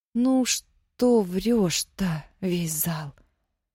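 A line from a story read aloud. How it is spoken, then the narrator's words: Dejected. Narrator (Russian): Уныло отмахнулась Нина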